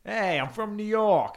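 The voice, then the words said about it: Put-on New York accent. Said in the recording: “what's the difference between a Boston and a New York accent? ... Doesn't sound like that.”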